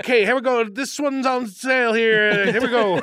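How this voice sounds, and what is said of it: Fake Italian auctioneer accent. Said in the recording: “doing an accent... why does ... become Italian when he has to be an auctioneer?”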